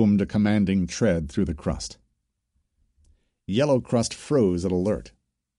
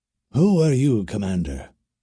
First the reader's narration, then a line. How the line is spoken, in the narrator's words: he asked